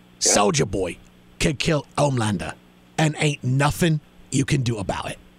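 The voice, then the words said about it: Imitates another person's voice. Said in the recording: “my Carl Urban impression ... Carl Urban from the boys”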